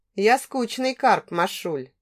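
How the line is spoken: Slightly sad. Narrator (Russian): немного печально проговорил Олег

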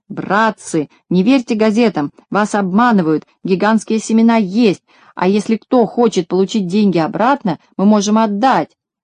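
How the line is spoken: Shouting to crowd. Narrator (Russian): Козлик, повернувшись к толпе, закричал

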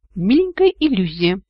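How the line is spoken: Giggling. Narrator (Russian): хихикнул Вик

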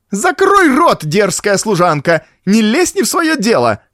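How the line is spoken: Shrieked angrily. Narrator (Russian): завизжала фрау Штейн

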